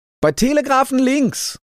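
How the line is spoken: Called out. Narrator (German): rief er

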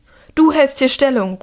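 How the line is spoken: Calling out. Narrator (German): ruft sie den einen zu

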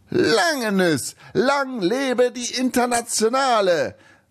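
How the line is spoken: Overly loud, effusive shout. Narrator (German): rief der Rumäne etwas zu laut und zu überschwänglich

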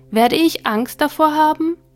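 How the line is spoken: Small soul calling. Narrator (German): rief die kleine Seele

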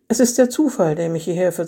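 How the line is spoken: Calm voice. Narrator (German): sagte Eva mit ruhiger Stimme

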